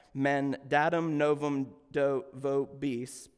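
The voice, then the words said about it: Latin in a strong Alabama accent. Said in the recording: “probably pronounced that in just about the worst Alabama accent that I could”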